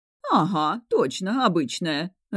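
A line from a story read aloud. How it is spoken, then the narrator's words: Owl laughing. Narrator (Russian): рассмеялась сова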